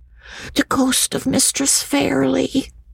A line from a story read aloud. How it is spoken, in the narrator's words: answered Jacob in a whisper